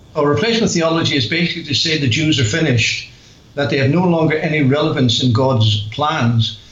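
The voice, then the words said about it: Northern Irish accent. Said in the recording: “Do I detect a Northern Irish accent? ... you do indeed, aye ... I am from Northern Ireland.”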